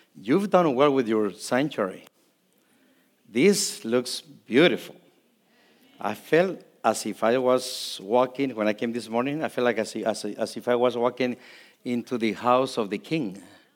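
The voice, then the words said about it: Non-native English accent, Spanish speaker. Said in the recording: “See, you don't understand me because I have an accent ... When I speak Spanish, I don't have no accent.”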